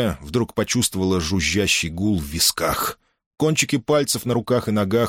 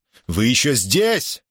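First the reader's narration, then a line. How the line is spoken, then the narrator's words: Yell in strange voice. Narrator (Russian): заорал он не своим голосом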